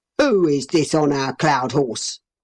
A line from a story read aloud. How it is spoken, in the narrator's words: he roared in his great angry voice